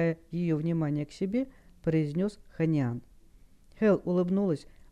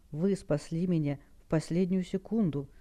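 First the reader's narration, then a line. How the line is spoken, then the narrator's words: Weak whisper. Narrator (Russian): слабым голосом прошептала девушка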